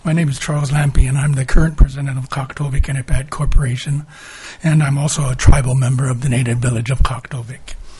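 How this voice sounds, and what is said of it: Raspy, hoarse voice. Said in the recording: “Excuse my voice. I ended up getting sick last week, and I'm just finally getting over it, so excuse my raspy voice.”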